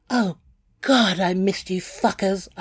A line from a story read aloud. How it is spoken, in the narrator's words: I cried